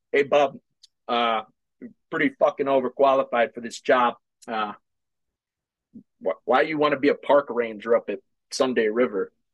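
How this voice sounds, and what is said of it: Imitated Boston accent. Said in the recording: “Boston accent”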